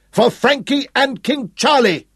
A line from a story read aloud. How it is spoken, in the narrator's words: shouted